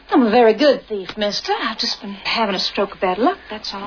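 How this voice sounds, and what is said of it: Unconvincing put-on Southern accent. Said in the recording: “Your accent could use a little work, too... Most gentlemen enjoy my southern.”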